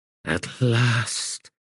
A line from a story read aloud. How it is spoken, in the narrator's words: he sighed